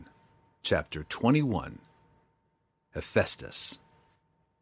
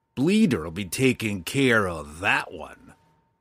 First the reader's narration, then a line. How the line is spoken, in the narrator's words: Roddy had snarled